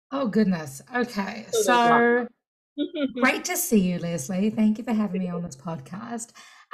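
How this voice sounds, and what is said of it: New Zealand accent. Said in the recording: “you've got an amazing accent ... If I was in New Zealand, where I'm from”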